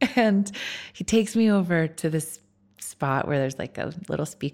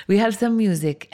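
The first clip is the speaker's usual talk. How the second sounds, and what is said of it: Terrible put-on Greek accent. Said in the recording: “my terrible Greek accent.”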